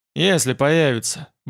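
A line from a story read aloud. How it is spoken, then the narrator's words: Grumbled. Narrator (Russian): буркнул я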